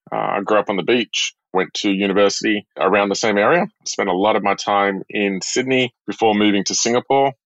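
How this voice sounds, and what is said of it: Australian accent. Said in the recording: “If the accent doesn't give it away, I'm from Australia”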